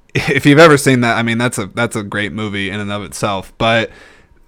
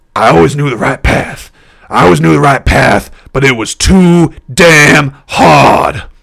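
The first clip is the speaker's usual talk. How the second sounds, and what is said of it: Bad Al Pacino impression. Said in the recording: “I'm going to do a really bad Al Pacino impression.”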